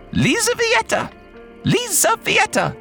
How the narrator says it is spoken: The Countess screeched again

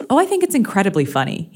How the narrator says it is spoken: he chuckled back

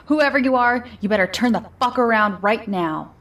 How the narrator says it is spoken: shouted

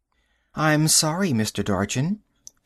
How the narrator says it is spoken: she said in a sweet, clear tone

